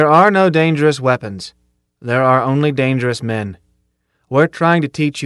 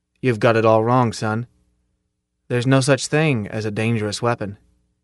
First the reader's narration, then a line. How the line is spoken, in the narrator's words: Zim said almost gently